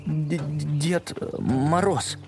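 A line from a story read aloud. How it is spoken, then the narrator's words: Stuttering. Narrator (Russian): заикаясь, сказал лис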